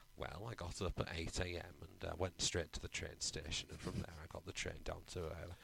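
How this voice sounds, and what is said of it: Soothing northern English accent. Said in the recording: “that's a reassuringly northern accent ... I could have fallen asleep to his voice. It was lovely.”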